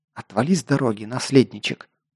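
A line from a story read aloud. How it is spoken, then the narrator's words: Hissed through teeth. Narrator (Russian): прошипела сквозь зубы вампирша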